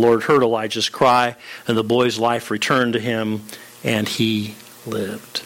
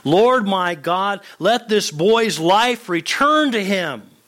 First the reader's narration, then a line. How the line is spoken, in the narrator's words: cried out to the Lord